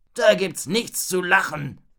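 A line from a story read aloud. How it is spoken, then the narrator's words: Robber knight growling. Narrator (German): knurrte Raubritter Ralle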